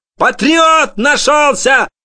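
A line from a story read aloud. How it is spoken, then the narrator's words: Grandmother screaming. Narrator (Russian): вопила бабушка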